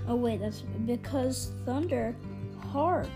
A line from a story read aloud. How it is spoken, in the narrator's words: said Tom